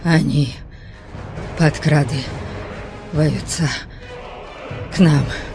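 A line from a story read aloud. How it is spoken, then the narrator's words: Hoarse wheeze. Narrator (Russian): просипел Бальд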